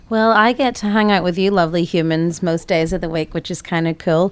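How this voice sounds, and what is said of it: Irish accent. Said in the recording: “You've got a bit of an accent ... My accent's from Ireland.”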